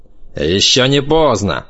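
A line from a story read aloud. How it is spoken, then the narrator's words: Snapping retort. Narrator (Russian): огрызнулся он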